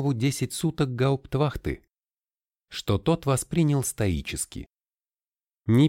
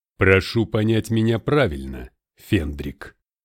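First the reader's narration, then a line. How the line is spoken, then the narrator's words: Deep bass voice. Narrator (Russian): басил полковник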